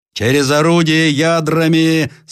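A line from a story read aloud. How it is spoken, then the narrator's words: Loud command. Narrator (Russian): скомандовал громким голосом Ленский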